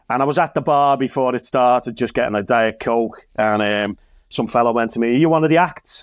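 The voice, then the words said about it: Liverpool accent. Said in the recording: “with this accent ... at me being from Liverpool”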